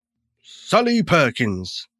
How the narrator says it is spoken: said, in a commanding voice

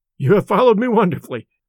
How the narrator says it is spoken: I exclaimed

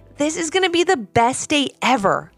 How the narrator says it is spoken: exclaimed their dad

